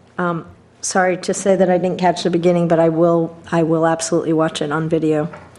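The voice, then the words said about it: Strained, less than optimal voice. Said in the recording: “My voice is a little less than optimal”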